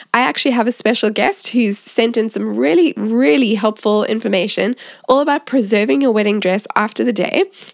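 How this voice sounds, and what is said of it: Congested, stuffy-nosed voice. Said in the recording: “As you can probably hear, I have a little bit of a cold.”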